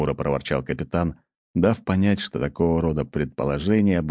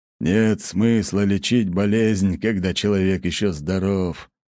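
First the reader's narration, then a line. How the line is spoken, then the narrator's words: Sigh. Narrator (Russian): вздохнул Лажон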